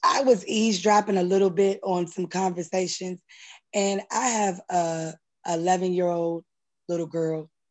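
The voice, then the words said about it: Strained, worn-out voice. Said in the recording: “excuse my voice. I've been hollering a little bit too much”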